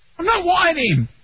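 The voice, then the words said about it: Shouting, yelling. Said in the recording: “Stop yelling”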